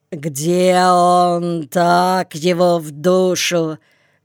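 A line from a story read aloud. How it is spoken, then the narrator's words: Hoarse drunken shouting. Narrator (Russian): кричал он сиплым пьяным голосом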